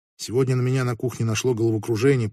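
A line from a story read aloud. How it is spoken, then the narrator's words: Quiet. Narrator (Russian): произнесла Анна тихо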